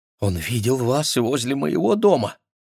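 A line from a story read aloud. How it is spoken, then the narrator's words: Frightened question. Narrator (Russian): Бриджит О'Шоннесси испуганно спросила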